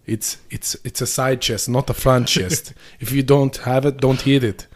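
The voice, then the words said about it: Imitated Austrian accent. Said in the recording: “Where's he from with that accent? ... I think it's Austrian.”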